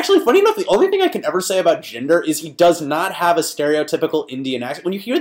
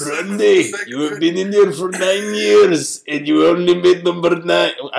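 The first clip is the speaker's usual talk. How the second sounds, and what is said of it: Old man-like imitated voice. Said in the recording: “I sound like an old man ... let me work on my Jinder voice a little bit here”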